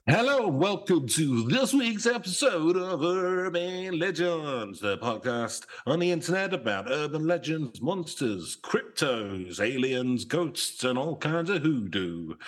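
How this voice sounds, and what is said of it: Put-on radio DJ style accent. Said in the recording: “I like the accent you're doing there ... started a bit radio-y ... going a bit sort of smashy and nicey”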